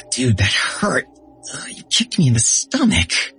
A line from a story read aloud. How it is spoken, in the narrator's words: Bait squealed